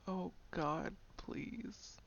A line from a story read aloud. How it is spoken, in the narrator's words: Moaning, he said